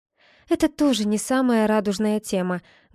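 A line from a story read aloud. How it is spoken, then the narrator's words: Sad wry smile. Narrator (Russian): грустно усмехнулась я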